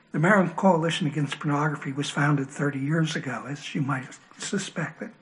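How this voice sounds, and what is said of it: Hoarse voice. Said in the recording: “I seem to have a hoarse voice today”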